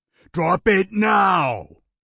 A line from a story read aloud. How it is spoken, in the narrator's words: Jonathan roared